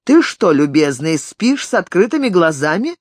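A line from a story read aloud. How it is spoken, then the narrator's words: Half joking, half irritated. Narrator (Russian): Голос Стефана звучал не то шутливо, не то раздраженно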